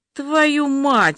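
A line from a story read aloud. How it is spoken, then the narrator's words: Spat out, offended. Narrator (Russian): выплюнула оскорбленная этим сонным голосом Маша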